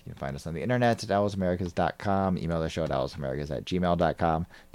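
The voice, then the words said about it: American accent. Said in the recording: “Sheffield Wednesday opinion with an American accent.”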